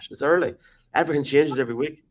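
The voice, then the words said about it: Imitates another person's voice. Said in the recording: “my best Jeff Reinebold impression.”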